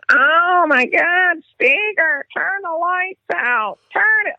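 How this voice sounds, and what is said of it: Imitates another person's voice. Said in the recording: “great impression”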